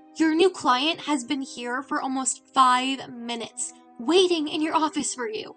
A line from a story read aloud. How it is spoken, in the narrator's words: she said urgently